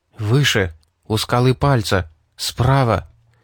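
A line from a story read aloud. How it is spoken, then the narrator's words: Near whisper. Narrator (Russian): сказал Дэйн почти шепотом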